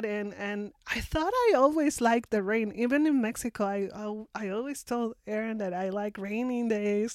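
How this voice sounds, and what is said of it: Non-native accented English. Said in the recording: “I might have good English, but sometimes my accent comes out”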